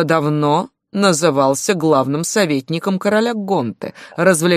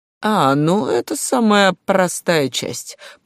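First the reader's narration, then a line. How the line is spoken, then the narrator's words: Creaky spider voice. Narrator (Russian): проскрипел паук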